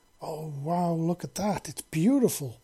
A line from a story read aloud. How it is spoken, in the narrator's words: Libra exclaimed